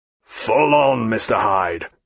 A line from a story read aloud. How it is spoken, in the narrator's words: said Jack, in a harsh voice